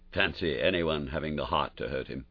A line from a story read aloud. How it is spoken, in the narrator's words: he muttered